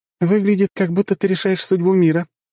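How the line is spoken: Giggling. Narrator (Russian): услышал хихикающую Лизу

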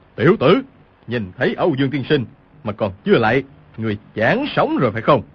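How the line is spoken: Shouted. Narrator (Vietnamese): Cừu Thiên Nhận quát lên

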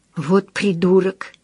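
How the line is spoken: Whisper. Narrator (Russian): прошептала

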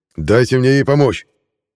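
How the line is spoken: Roaring. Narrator (Russian): взревел граф

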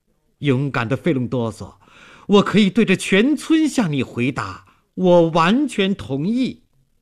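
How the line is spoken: Loud solemn vow. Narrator (Chinese): 他像表白誓言那样大声说

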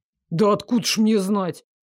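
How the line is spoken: Snapping retort. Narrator (Russian): огрызнулся Дарек

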